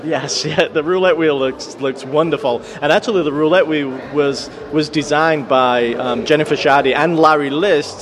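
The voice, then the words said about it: American accent with traces of Yorkshire. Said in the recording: “he doesn't quite sound like a Yorkshireman anymore ... detects a little Yankee twang ... The Yankees are the dominant accent there, and you can hear a bit of Yorkshire in him still.”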